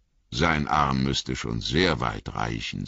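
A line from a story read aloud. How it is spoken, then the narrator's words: Plain. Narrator (German): sagte Gimli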